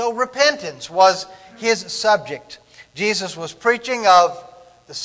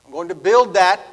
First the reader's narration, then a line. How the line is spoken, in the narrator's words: Jesus says